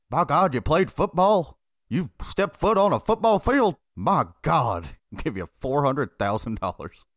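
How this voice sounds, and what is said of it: Imitates another person's voice, poorly. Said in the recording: “Is that not a good impression of him? ... you fucking butchered the fuck out of it”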